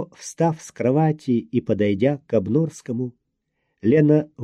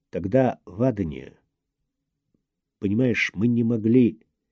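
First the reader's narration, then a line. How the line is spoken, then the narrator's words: Muffled, hollow voice. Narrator (Russian): глухо сказал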